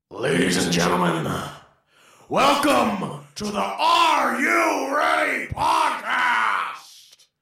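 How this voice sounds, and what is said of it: High-energy wrestling announcer impression. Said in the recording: “That was high energy... That was my Vince McMahon impression.”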